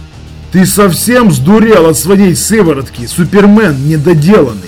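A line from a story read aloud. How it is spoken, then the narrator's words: Loud question. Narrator (Russian): громко спросил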